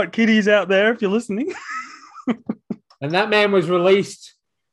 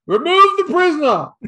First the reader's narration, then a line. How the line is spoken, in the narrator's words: he shouted at the gendarme